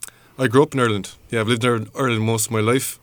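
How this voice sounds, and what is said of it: Irish accent. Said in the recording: “I take it from your accent, you've lived in Ireland”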